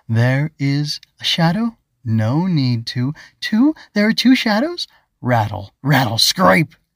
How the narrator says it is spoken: the Grobug said slowly

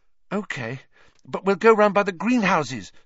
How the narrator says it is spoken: said Hermione breathlessly

